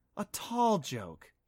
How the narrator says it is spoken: purred with fake admiration

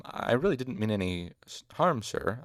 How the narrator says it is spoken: I said in my best distraught voice

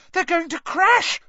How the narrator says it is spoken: shrieked Hermione

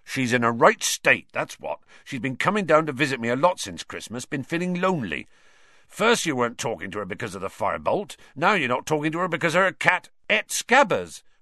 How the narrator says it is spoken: Ron interjected angrily

